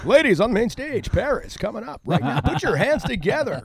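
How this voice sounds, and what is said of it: Strip club announcer voice. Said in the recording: “I can do my stripper voice.”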